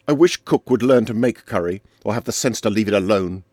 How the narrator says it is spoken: said Arlington, suddenly and savagely

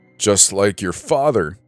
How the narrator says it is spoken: spluttered through hiccups

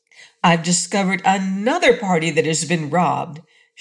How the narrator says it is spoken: shouted Scraps

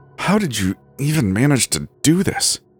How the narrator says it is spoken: she hissed

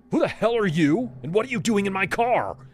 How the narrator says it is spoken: barked at her

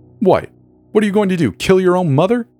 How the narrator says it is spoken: shouted

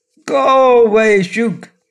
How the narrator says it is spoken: he cried

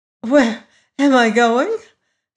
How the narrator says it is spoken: she replied with an unsteady laugh

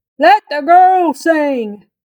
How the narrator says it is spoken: The pirate guy hollered

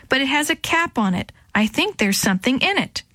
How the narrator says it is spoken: she shouted back

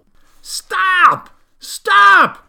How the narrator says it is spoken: cried Farmer Dilly

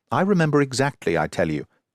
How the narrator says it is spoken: cried the duke excitedly

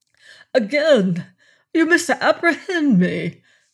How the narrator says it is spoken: cried Lord Julian, between concern and indignation

